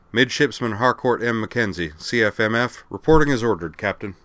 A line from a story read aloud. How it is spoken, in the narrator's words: came stiffly to attention, declared